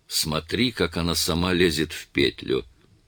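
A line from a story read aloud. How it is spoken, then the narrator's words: Whispered. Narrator (Russian): Роберт де Сильва прошептал своему помощнику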